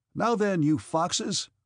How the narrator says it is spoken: said another, laughing

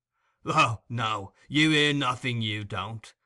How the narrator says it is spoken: retorted Sikes with a fierce sneer

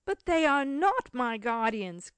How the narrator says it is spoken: cried Cecil, becoming incensed at the cruelty of the two men

